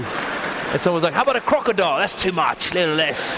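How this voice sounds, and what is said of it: Put-on Australian accent. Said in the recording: “keep talking in your Australian accent ... Very realistic ... you do a bad Australian accent”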